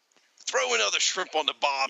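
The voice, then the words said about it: Bad put-on Australian accent. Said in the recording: “don't ever do that Australian accent again ... It was terrible ... bad Australian accents”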